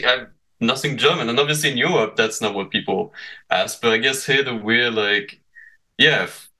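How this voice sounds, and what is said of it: British accent with French pronunciation. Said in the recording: “I have basically what I call a British accent with French pronunciation, and now it's tinted by the Canadian accent ... I have a very strange accent ... the one I get in Canada a lot is, are you German?”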